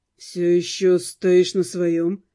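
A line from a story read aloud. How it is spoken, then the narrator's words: Snorting scoff. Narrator (Russian): хмыкнул Руперт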